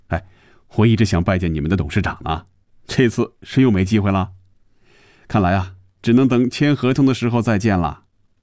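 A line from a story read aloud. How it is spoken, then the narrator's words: Joking. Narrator (Chinese): 又开着玩笑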